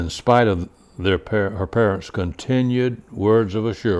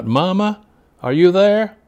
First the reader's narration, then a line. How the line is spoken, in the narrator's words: she called out